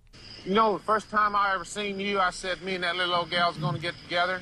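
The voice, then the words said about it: Southern Appalachian accent. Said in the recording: “the Appalachian accent is also influenced by the Irish accent ... that's going to sound Southern in general, or maybe Appalachian, West Virginian kind of thing ... Is it Irish? ... It is.”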